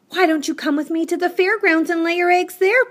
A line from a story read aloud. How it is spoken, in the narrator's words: pleaded Wilbur